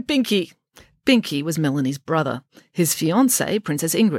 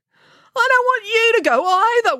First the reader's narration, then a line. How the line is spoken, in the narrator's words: wailed Binky